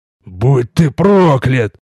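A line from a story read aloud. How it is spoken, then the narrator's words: Hissed. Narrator (Russian): прошипел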